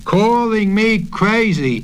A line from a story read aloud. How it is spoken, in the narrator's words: he shouted